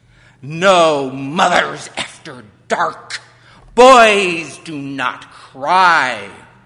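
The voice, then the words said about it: Harsh barking cruel queen voice. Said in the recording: “She barked in her cruel queen voice.”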